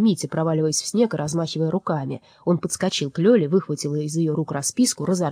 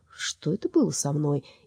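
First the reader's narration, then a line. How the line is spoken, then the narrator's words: Dazed mutter. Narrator (Russian): Часовой мастер будто очнулся, пробормотал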